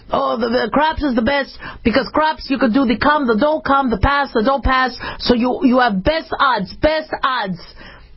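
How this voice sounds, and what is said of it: Imitating father's thick accent. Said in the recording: “he had a really thick accent”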